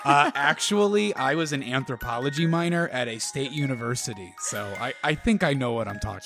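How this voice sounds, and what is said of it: Smug, self-satisfied tone. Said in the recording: “my best smug impression.”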